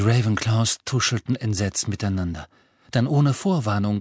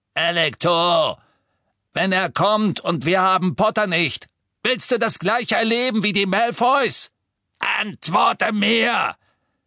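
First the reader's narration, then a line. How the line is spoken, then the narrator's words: Bellowing. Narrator (German): Amicus brüllte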